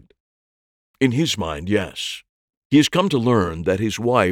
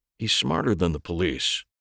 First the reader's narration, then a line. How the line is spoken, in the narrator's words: he said quietly